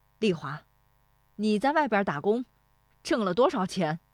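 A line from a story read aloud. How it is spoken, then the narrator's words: Loud voice. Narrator (Chinese): 石德昌说这话的嗓门很响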